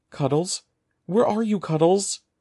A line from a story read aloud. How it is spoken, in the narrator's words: called in a trembling voice